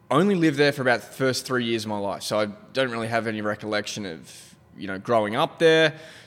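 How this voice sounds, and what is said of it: Australian English accent. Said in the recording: “You're not from the U.S. originally ... If you can tell ... by the accent, everybody can hear ... I was born in Adelaide, Australia”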